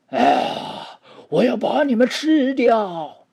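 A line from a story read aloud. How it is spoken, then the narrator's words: Roaring. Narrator (Chinese): 麦克斯也吼着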